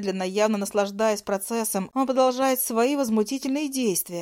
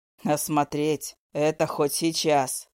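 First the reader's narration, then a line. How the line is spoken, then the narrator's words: Agreeing with a chuckle. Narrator (Russian): хохотнув, соглашается Вегер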